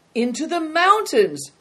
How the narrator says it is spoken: Christian shouted back

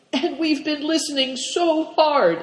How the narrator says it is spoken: exclaimed Christian

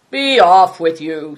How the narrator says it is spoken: snarled Greencoat

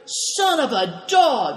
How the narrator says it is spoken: shouted Greencoat

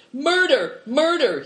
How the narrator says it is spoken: he shouts

